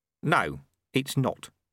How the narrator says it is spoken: said Ronnie calmly

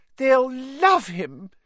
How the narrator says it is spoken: cried Aunt Petunia rapturously

